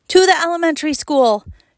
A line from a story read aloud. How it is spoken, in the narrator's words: shouted Mom from behind the truck